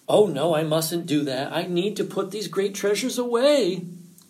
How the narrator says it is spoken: groaned Fox

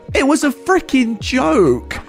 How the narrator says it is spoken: she started screaming

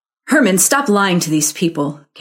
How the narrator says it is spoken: Karen snapped

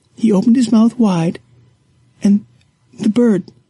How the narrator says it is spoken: she sobs

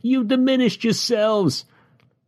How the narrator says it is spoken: the philosopher cried as the soldiers dragged him away

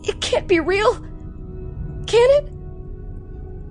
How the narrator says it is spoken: Butch cried

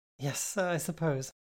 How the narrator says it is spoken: chuckled nervously

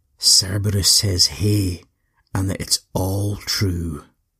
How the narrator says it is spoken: He very calmly walked up to the scary beast that was Orthrus and said quietly in his ear

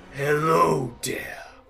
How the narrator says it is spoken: he snarls down at you and says

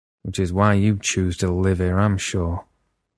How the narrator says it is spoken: he said bitterly

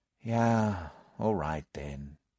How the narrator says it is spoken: I said with a sigh

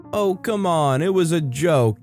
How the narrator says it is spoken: yelled

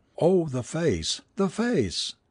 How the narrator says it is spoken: She only repeated hysterically again and again

